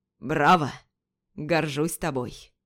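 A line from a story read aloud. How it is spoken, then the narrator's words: Booming voice. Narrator (Russian): Прогремел голос Юсупова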